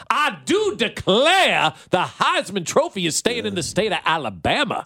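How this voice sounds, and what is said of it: Fake Southern accent. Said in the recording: “Who does a better fake Southern accent, me or Brian Kelly?”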